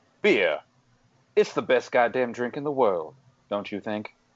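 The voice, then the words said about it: Kevin Spacey doing Jack Nicholson. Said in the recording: “I'm going to do Kevin Spacey as from House of Cards at doing Jack Nicholson quotes.”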